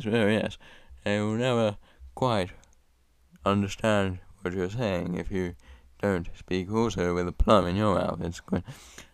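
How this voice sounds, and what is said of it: Plummy posh English accent, mumbled. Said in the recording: “somebody with a plum in their mouth, it means the sides of their mouth will never touch the other sides of their mouth. So they will speak a bit like this ... that was my impression ... Sorry if that was very difficult to understand ... an English person”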